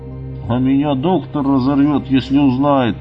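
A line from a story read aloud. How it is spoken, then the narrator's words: Grumbled. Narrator (Russian): буркнул санитар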